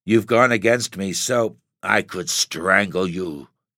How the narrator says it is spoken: he growled

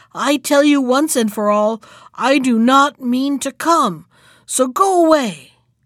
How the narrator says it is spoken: he exclaimed

